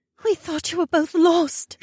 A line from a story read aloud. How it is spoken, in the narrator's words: Shay said, as she held me so tightly she trembled